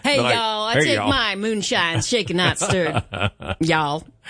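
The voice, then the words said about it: Put-on Southern American accent. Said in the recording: “it's got to be a southern accent... So you'd hear y'all.”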